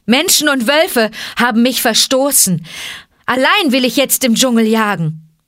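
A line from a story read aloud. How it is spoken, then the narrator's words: Calling out. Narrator (German): rief Mowgli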